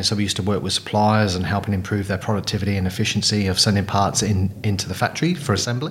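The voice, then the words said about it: English Midlands accent. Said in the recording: “You probably gathered from my accent, I'm not a local boy. So originally from Coventry in the UK.”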